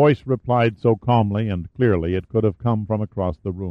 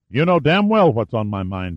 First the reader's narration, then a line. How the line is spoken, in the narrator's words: snapped into the receiver